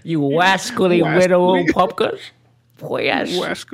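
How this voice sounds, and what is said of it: Slightly off Elmer Fudd impression. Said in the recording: “my Japanese person sounds like Elmer Fudd ... do a Elmer Fudd impression. It was a little bit off”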